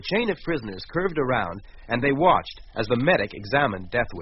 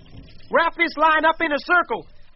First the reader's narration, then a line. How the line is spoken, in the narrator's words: Bill shouted